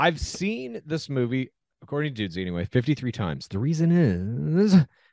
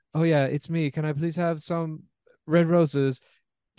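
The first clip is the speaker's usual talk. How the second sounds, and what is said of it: Tommy Wiseau impression. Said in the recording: “that impersonation of Tommy Wiseau that you just did, number two underneath Charlie Sheen. Really good shit.”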